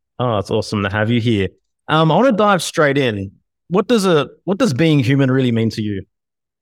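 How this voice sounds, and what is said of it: Speaks with a noticeable accent. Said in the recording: “I love those words in your mouth with your accent.”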